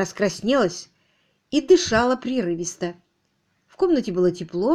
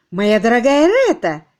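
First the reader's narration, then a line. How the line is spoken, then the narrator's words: Amazed, admiring exclamation. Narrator (Russian): Джеймс с изумлением и с некоторой долей восхищения воскликнул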